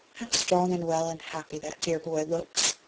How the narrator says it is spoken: Beth said softly, as if to herself

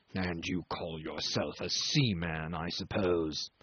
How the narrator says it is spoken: he pronounced angrily

